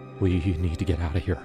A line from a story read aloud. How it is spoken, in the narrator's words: Jake said, his voice shaking